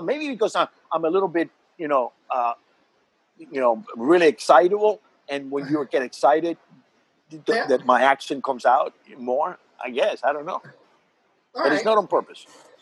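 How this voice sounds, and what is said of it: Slight Cuban accent. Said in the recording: “You have a little bit of an accent, which is thicker when you perform ... the Cuban accent”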